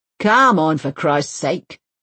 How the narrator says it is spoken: he grunts

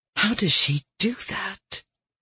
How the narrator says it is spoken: Winter breathed, her voice tinged with awe

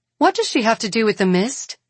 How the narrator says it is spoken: Catherine asks sharply

